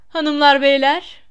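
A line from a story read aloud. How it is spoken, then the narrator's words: Loud. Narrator (Turkish): dedi yüksek sesle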